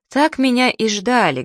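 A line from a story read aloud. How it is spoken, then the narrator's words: Sad smiling tone. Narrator (Russian): грустно улыбнулся Саша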